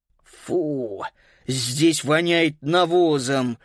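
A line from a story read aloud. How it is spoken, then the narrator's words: Snorted. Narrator (Russian): фыркнул Паскаль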